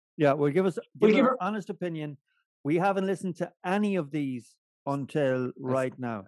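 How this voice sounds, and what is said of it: Talking very loudly. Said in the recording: “going to shout over us for the rest of the night. ... I don't know why I'm talking so loud tonight.”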